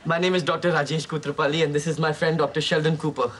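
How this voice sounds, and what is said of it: Indian English accent. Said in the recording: “That's a great accent. Where are you from? ... India.”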